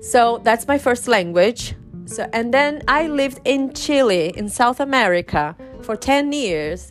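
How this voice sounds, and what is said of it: Brazilian Portuguese accent in English. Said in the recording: “you can notice my accent i am from brazil i'm brazilian”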